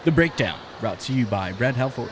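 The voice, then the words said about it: Announcer-style radio voice. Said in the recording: “I'm really trying my radio voice, it's not the greatest.”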